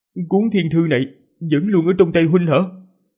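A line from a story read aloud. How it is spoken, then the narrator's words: Trembling question. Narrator (Vietnamese): hắn giọng run rẩy mà hỏi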